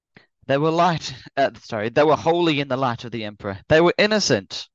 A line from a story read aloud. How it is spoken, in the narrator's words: cried Abigail, her back aching as she yelled